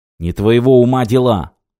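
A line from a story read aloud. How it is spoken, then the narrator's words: Angry snarl. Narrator (Russian): зло ощерился Колхейн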